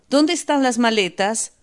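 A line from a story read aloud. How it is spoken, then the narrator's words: Sudden shout. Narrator (Spanish): De repente Lisa gritó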